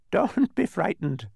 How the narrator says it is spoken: laughed

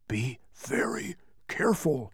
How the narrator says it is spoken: whispered Tok

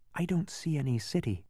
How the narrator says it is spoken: said Milo very softly

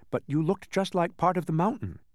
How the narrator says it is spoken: said Milo meekly

